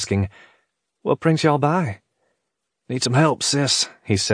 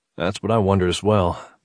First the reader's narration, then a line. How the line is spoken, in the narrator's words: Mitch replied